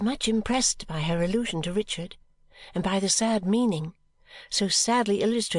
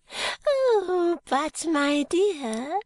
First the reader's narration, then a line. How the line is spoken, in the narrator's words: she said gaily